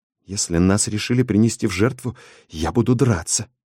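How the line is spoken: Whisper. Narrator (Russian): прошептала Тупка

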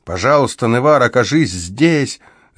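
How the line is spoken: Desperate shout. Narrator (Russian): закричал он, и в его голосе слышалось такое отчаяние

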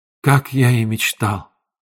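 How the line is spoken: Whispered. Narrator (Russian): прошептал он

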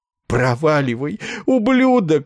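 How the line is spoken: Sobbing. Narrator (Russian): всхлипнул Ессариан

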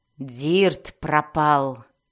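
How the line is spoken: Growled. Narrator (Russian): прорычала Мелис

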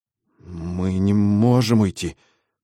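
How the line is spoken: Stammering babble. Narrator (Russian): запинаясь, пролепетал он

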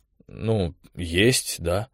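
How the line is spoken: Drawled. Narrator (Russian): протянул Колян

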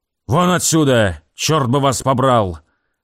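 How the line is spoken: Barked. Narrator (Russian): рявкнул он

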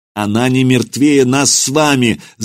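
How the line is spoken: Shouting. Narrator (Russian): закричал Роман

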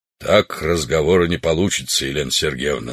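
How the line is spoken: Plain, old man. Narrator (Russian): сказал старик

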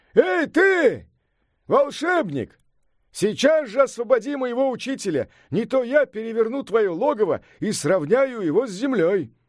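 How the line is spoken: Loud shout. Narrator (Russian): Сунь-Укун громко крикнул

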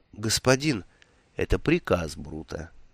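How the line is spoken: Gentle, affectionate. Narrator (Russian): ласково произнес Ворбис

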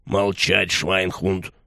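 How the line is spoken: Growled. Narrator (Russian): прорычал Курт

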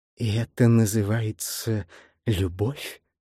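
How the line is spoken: Whisper. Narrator (Russian): шепнула она

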